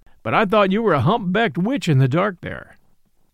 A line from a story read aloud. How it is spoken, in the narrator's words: said the man, with a short laugh